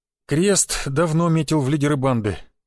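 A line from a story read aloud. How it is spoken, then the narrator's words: Grim, gloomy tone. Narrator (Russian): мрачно произнес Сергеич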